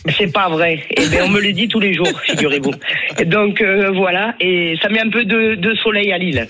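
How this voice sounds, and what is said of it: Southern French accent from Perpignan. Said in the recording (French): “je suis originaire de Perpignan ... Oui, ça s'entend, vous n'avez pas l'accent de Lille”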